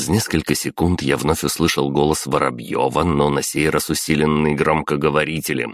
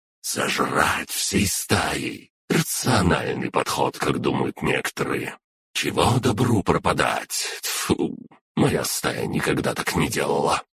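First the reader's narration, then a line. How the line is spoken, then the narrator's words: Wheezing radio voice. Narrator (Russian): Захрипела рация, и я услышал Петра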